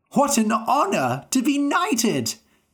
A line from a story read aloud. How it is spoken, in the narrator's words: they cried